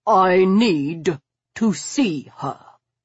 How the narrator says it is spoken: he repeated, clipping the words in his most aristocratic tones

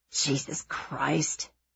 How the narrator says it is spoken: Nate mutters

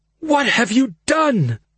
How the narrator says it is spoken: More accusation than question, the words were wheezed through bared teeth

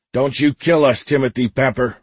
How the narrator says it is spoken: Roger shouted

